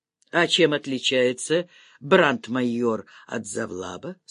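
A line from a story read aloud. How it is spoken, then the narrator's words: Plain. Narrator (Russian): спросил генерал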